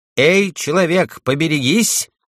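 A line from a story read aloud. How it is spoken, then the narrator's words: Shouted warning. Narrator (Russian): крикнул Анти Партенену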